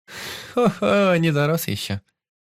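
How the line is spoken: Laughing. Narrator (Russian): рассмеялась она

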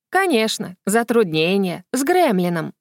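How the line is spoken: Sulky grumble. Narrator (Russian): проворчала она, насупившись

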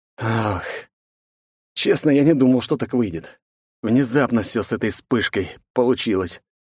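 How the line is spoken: Sighing. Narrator (Russian): вздохнул я

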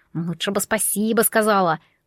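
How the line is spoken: Amused grunt, cat. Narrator (Russian): хмыкнул кот

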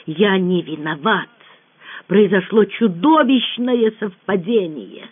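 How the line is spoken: Hiss. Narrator (Russian): он, державшийся до этого момента с редким самообладанием, прошипел

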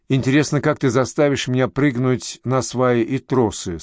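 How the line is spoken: Plain. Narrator (Russian): спросила Галя

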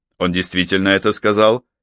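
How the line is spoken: Sharp question. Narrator (Russian): резко спросил

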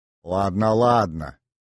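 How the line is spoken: Mother grumbling contentedly. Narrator (Russian): довольно проворчала мама

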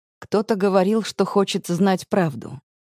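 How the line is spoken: Soft chuckle. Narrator (Russian): мягко усмехается он

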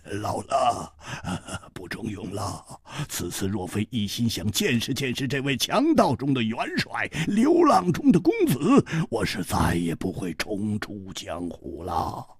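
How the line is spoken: Laughing. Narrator (Chinese): 秃鹰摇头笑

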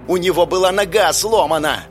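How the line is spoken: Yelling. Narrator (Russian): орал первый

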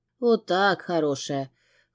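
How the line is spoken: Wry snort. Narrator (Russian): хмыкнул Габриэль

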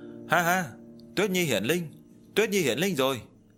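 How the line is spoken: Joyful loud laughter. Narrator (Vietnamese): Diệp Chi Thu cũng không ngừng cười to, trong lòng trào nên một dòng nước ngọt ấm áp

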